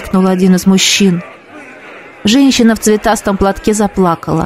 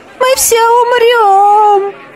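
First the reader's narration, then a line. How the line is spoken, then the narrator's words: Hysterical scream. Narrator (Russian): истерично закричал кто-то в толпе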